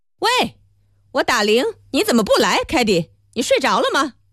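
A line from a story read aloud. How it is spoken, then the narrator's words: Shrill cry. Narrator (Chinese): 米莱蒂尖声叫道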